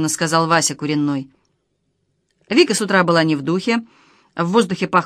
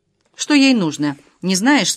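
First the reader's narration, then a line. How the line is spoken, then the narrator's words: Plain. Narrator (Russian): спросила Лада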